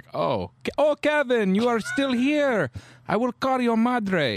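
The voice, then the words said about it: Put-on Italian accent. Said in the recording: “Is she Italian? ... I love that Italian accent.”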